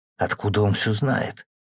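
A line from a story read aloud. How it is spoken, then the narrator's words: Whispered question. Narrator (Russian): шепотом спросил Сеня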